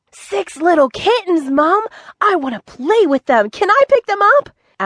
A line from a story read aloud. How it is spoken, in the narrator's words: asked Avon excitedly